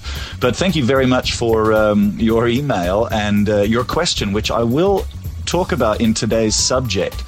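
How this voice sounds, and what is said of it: Australian vowels with pronounced R's. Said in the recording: “I have Aussie vowel sounds because I've certainly lost my Canadian vowel sounds ... But I say my R's ... That would be the difference between me and an Aussie accent.”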